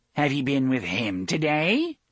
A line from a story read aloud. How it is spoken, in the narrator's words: Cordelia asked, in a brittle, laughing voice